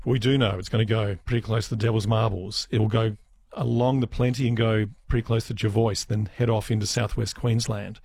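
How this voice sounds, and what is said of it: Fading, losing voice. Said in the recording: “my voice is departing right now”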